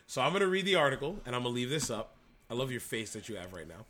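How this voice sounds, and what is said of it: Hoarse voice. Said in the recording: “my voice is going hoarse”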